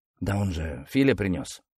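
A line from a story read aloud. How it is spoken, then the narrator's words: Muttering. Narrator (Russian): бормотал Ступин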